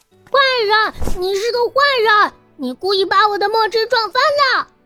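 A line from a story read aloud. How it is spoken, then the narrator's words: Angry loud yelling. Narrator (Chinese): 邵元浩就炸毛了，大声的叫唤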